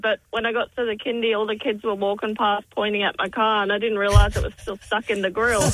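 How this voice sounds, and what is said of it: Noticeable regional accent. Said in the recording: “You got an accent. Yeah, I love it.”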